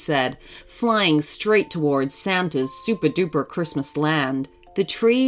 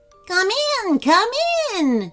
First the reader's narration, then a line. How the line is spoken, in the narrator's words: they all chirped in high-pitched voices